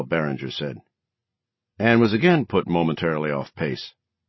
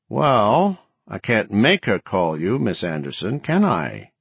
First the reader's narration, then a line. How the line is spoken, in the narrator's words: Barringer returned with infuriating, drawly slowness